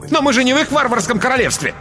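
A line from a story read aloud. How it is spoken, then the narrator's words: Haughty shout. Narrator (Russian): Все еще сохраняя надменность, Смит выкрикнул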